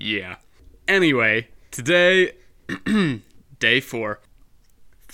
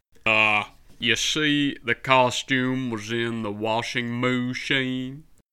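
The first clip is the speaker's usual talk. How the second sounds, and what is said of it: Questionable put-on cowboy accent. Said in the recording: “dressed up like a cowboy ... That is a highly questionable accent.”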